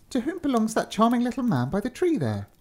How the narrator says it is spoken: exclaimed Marie at last

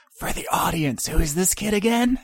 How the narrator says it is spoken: And whispers

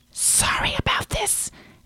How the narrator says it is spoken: Eric whispered to George

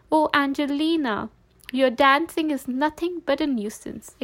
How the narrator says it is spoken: exclaimed her mother

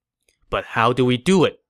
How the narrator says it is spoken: Gao Ding asked

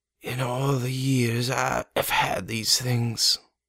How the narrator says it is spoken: wheezed

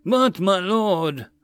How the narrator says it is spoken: another baron said as he mocked a distressed tone

